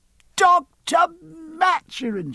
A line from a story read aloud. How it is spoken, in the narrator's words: she cried